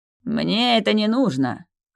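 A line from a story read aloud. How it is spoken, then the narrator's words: Scoffing grunt. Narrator (Russian): хмыкнул Лих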